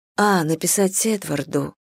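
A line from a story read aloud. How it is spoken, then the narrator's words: Quiet. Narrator (Russian): тихо сказала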